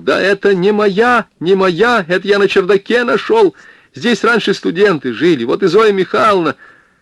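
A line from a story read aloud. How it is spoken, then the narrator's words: Creaking shout. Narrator (Russian): он заскрипел и закричал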